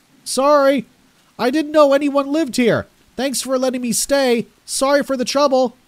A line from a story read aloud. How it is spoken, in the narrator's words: I held my hands to my mouth as a makeshift megaphone and shouted out